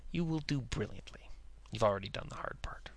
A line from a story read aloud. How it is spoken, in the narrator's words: Paquette took him in close and murmured